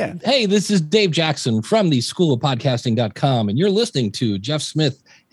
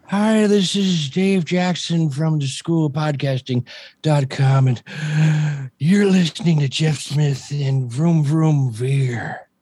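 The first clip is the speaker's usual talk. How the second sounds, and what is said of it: Old man voice. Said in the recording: “That's old man voice. ... That is old man voice.”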